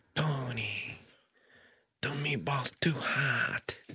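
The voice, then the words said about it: Imitates a character's voice. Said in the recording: “do a Syl impression. ... That was pretty good.”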